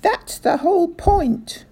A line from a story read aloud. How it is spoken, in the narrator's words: cried Mr